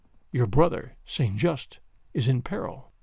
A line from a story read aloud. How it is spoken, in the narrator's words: he said quietly